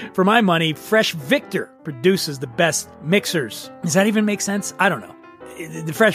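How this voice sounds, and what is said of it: Usual voice. Nothing is said of it.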